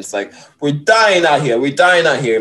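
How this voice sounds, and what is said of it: Put-on Spanish accent. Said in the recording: “in my Spanish voice”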